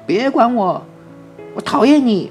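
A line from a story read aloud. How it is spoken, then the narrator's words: Crying shout. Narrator (Chinese): 史蒂夫哭了起来，开始大叫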